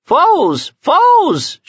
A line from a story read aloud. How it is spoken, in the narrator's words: screamed